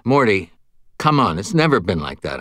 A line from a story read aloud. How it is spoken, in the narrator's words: I said